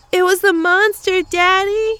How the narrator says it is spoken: She shouted

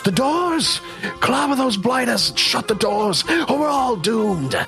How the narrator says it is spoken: yells

